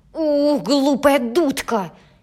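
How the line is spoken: Angry shouting girl. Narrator (Russian): Сердито закричала девочка

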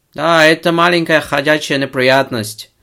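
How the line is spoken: Shouted. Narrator (Russian): прокричал

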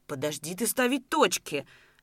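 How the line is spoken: Embarrassed pleading. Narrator (Russian): взмолился красный от смущения Давыдов

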